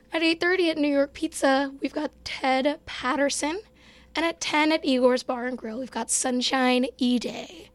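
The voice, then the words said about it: Strained voice, losing his voice. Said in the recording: “I'm kind of losing my voice, so expect me to sound like this”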